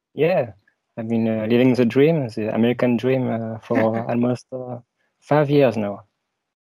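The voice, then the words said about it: French accent. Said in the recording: “I'm French, as you can tell from my accent.”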